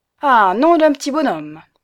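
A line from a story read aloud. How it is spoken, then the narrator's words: Exclaimed. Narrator (French): s'écria l'ouvrier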